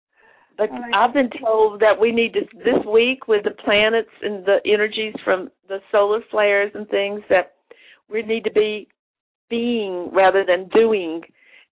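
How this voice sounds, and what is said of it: Hoarse, congested voice. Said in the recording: “I've been having that little sinus stuff going. You can hear it in my voice. I'm very hoarse.”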